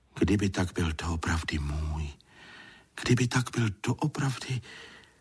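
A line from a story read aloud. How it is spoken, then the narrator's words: Whispered to himself. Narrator (Czech): šeptal si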